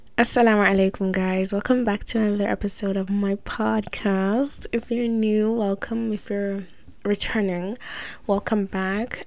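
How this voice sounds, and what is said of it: Hushed, quiet voice. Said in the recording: “my voice sounds a little bit hush-hush”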